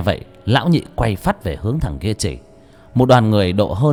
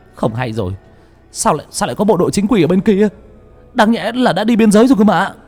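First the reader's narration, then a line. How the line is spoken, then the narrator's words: Sudden cry. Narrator (Vietnamese): Bỗng một thằng kêu lên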